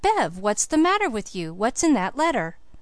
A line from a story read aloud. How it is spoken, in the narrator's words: Felix exclaimed